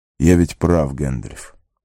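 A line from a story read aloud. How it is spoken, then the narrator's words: Quiet. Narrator (Russian): тихо проговорил Арагорн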